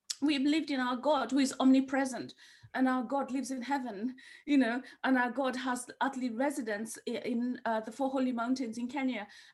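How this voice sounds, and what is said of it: Not purely British accent. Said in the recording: “my accent is, I don't think it's purely British. It doesn't sound purely British. People think I'm French”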